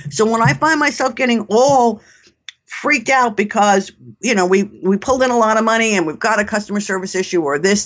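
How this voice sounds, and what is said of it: New York accent. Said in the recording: “if you can't tell from my accent, I'm a New Yorker.”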